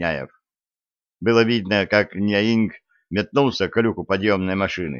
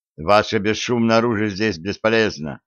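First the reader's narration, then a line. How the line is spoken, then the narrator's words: Plain. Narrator (Russian): сказал Широков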